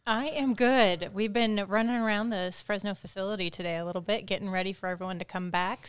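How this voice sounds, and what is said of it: Slightly out of breath. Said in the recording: “a little out of breath”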